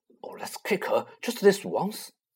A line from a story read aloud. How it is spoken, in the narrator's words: Ron whispered in Harry's ears